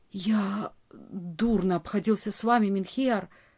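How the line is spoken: Male whisper. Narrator (Russian): прошептал он

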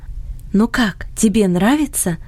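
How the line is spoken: Whisper in ear. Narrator (Russian): шепнула она на ухо Фредди

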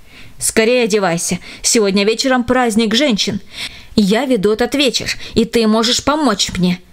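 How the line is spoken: Plain. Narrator (Russian): сказала

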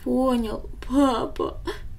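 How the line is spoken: Sobbing boy. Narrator (Russian): всхлипнул мальчик

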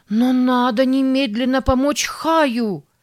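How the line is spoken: Desperate shout. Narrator (Russian): в отчаянии закричала Сара

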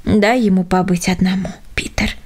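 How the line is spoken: Soft. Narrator (Russian): сказал почтальон мягко

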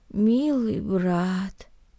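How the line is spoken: Muttered. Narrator (Russian): пробормотал Наэль

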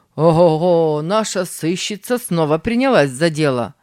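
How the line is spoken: Mocking. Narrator (Russian): заметил Тим насмешливо

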